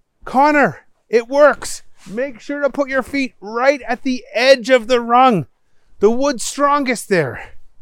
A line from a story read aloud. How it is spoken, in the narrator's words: You yell up